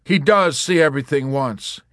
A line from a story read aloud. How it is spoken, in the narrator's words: he exclaimed